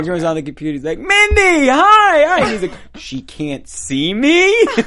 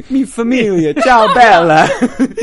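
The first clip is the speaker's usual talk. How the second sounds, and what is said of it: Good put-on Italian accent. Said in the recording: “You do a good Italian accent.”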